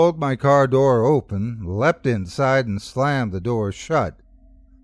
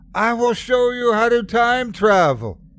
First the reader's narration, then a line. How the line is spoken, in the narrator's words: screamed